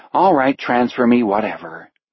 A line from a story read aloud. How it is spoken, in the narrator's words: sigh, then say